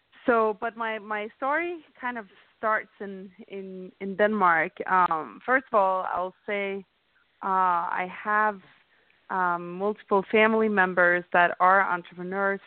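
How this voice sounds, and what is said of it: Slight Danish accent. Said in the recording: “I'm from Denmark. Everybody can probably hear I have a little bit of an accent”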